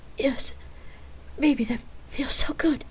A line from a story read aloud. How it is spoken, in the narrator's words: Rain breathlessly replied